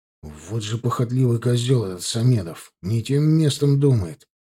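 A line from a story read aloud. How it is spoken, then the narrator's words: Grumbling. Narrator (Russian): пробурчал Булатов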